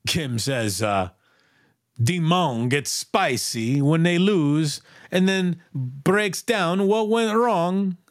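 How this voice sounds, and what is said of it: Put-on Italian accent. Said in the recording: “I don't even know if that needed an Italian accent, but I put it on there.”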